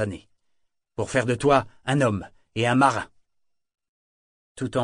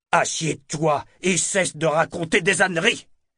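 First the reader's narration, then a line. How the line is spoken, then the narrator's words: Barked. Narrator (French): aboya-t-il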